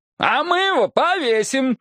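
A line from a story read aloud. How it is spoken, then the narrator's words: Gleeful yelling. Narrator (Russian): заорали они, искренне веселясь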